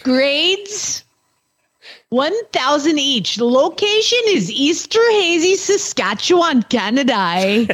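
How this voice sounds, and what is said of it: Weak put-on accent reading aloud. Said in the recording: “I think Hannah's accent may have been better, actually. ... my accent can suck”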